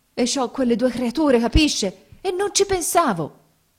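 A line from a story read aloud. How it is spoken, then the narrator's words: Strangled exclamation. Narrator (Italian): esclamò con voce strangolata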